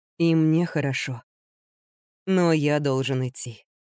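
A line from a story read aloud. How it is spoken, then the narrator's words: Soft. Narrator (Russian): мягко сказал Генри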